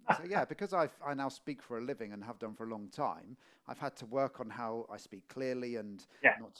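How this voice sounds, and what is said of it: Middle England English accent. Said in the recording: “I have a Middle England accent really now”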